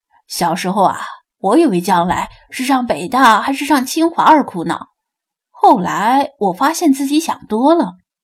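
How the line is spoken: Witty, laughing. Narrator (Chinese): 他灵机一动，笑道

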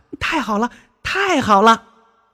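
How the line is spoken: Child shouting happily. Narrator (Chinese): 小哪吒高兴的直叫

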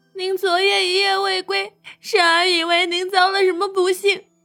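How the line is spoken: Choked with tears. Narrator (Chinese): 珊儿声音都哽咽了

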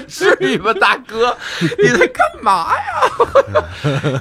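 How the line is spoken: Laughing. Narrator (Chinese): 我们全场都笑了，说

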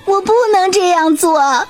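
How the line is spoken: Crying, swallow. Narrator (Chinese): 燕子哭着说

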